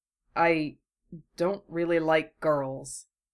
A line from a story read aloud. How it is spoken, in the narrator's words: Genma still ducks his head to hide it behind his hair, and mumbles